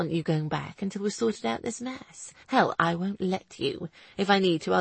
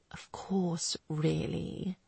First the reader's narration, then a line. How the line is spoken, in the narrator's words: he replied quietly